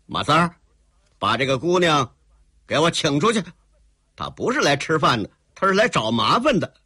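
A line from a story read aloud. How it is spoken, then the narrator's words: Shouting. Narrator (Chinese): 刘二拐子，心里头本来就有点不大高兴，一听这个黑衣姑娘怎么竟敢到他这儿来耍横，当时一回头喊一个叫马三儿的伙计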